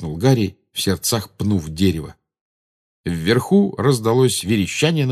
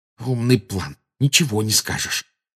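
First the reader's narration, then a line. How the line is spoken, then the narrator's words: Angry hiss. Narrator (Russian): прошипел Гарри, выплескивая злость на Гермиону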